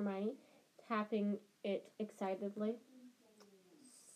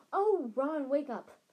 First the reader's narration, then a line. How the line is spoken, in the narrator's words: snapped Hermione